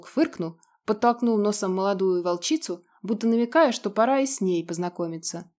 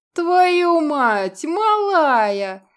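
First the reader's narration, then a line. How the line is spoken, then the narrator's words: Laughing. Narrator (Russian): смеялся Вольнов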